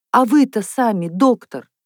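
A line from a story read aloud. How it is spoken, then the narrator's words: Exclaiming. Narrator (Russian): воскликнула Наташа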